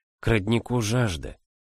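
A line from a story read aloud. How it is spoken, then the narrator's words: Whisper. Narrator (Russian): прошептала она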